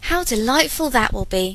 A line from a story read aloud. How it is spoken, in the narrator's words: cried Isabella